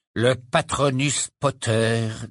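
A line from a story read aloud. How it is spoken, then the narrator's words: Icy tone. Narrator (French): dit Lucius Malfoy d'un ton glacial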